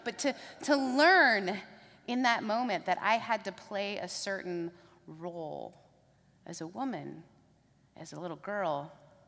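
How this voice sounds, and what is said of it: Mixed British, Southern, Canadian accent. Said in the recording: “my three accents ... I'm British, Southern, and Canadian. So the accent you hear is”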